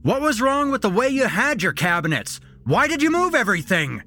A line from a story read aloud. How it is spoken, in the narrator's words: he shouted